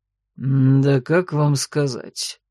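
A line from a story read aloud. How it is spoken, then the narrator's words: Sudden snort. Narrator (Russian): хмыкнул он вдруг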